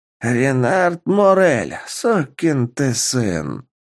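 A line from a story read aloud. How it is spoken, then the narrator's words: Hissing. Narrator (Russian): прошипел Кюри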